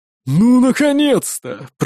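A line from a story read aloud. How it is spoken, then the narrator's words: Grumbling. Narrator (Russian): проворчал Эйрик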